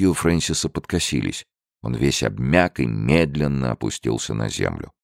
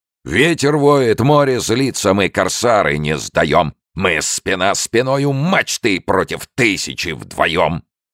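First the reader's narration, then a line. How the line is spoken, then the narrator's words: Loud booming singing. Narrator (Russian): пел зычным голосом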